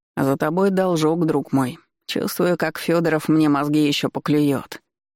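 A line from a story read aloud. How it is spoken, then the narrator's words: Plain. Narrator (Russian): сказал он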